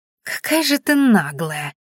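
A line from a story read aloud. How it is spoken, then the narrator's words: Girl's hiss. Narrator (Russian): прошипела девчонка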